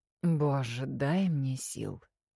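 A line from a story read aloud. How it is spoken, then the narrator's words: Groaning. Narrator (Russian): Простонала темнота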